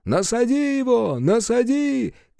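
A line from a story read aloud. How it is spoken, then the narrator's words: Shouting. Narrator (Russian): А кто-то кричал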